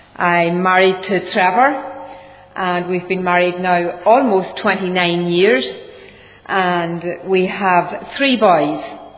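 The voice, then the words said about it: Southern Irish accent. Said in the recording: “this accent of mine ... I was born in the south of Ireland, and I'm sure you've already picked that up”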